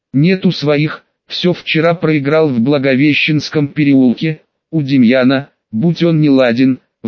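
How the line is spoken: Sighing stranger. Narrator (Russian): вздохнул незнакомец

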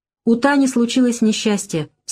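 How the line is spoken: Stern explanation. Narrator (Russian): строго поясняет Олег

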